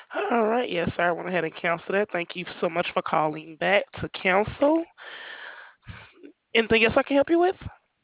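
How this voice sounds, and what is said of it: Southern US accent. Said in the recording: “your accent. ... Where's that? ... I'm from the South. ... South, yeah, because it sounds like it. ... your accent sounds nice.”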